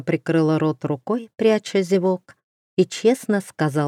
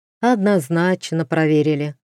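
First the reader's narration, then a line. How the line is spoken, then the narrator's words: Sigh. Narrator (Russian): вздохнул Зар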